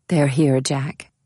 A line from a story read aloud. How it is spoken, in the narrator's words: she said quietly